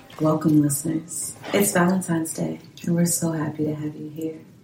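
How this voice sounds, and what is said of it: Sultry, seductive voice. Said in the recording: “put on my sexy voice”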